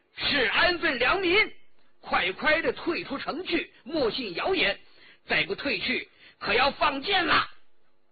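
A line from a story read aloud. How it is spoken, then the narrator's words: Loud shout. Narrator (Chinese): 孙克通 颇有胆量 高声叫道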